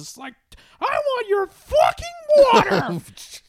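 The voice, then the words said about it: Imitates a cartoon mascot character voice. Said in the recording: “You sound suspiciously like the Cocainosaurus ... I'm doing an impression like a 5 second films”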